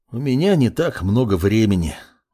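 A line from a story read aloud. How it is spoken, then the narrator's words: Sighing. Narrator (Russian): вздохнул гость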